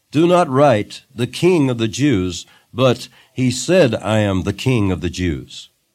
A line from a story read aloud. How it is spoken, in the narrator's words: Pilate answered